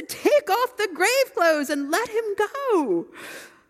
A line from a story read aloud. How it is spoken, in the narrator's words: Jesus laughed and said